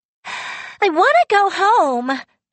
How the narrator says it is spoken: she screamed

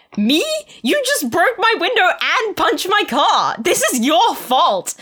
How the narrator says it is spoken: yelled at him fiercely

